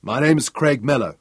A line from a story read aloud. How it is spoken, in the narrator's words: he said